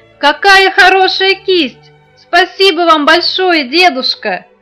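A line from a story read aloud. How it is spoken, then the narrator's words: Joyful shouting. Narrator (Russian): Малян от радости запрыгал и закричал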